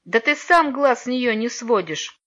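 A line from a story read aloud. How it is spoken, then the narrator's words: Venomous laugh. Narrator (Russian): ядовито рассмеялся Алеша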